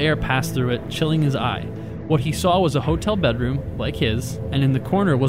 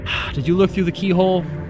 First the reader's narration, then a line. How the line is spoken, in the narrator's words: She sighed and said